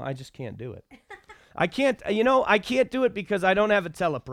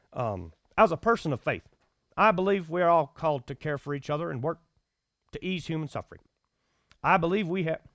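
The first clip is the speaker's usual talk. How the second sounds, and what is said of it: Barack Obama impression. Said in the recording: “should I try to do an Obama impression? ... I haven't worked on an Obama impression ... a Barack Obama impersonation”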